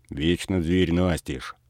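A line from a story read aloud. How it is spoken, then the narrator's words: Grumbling. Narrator (Russian): ворчал он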